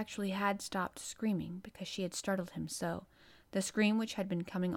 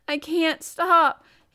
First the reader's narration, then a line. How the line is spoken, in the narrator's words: gasped and sobbed